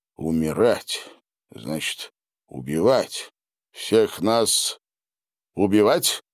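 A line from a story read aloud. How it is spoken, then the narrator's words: Plain. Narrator (Russian): спросил он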